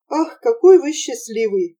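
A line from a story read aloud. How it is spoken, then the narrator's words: Sighing. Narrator (Russian): вздохнув, сказала Нина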